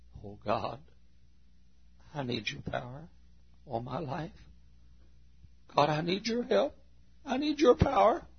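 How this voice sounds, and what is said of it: Earnest whispered prayer. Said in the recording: “I can be just as earnest when I'm whispering”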